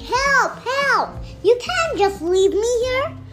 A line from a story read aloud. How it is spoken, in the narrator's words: the big bad wolf was shouting